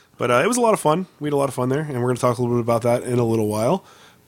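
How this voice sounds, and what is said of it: Wrecked, strained hoarse voice. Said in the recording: “forgive my voice a little bit. I've been sick for the last week or so... My voice is just wrecked right now.”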